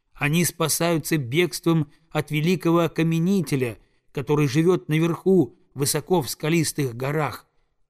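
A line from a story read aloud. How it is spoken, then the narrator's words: Plain. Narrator (Russian): ответила белая куропатка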